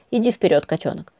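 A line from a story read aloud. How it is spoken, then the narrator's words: Whispered in ear. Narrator (Russian): шепнул он мне на ухо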